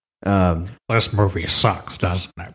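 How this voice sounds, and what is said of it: Imitates another person's voice. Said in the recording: “that's my Dick Cheney impression”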